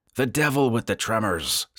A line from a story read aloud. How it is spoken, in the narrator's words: said Travis impatiently